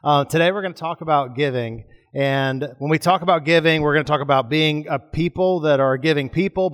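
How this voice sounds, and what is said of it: Scratchy, raspy voice. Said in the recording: “my throat's a little scratchy ... I may sound different ... my voice sounds a little raspy.”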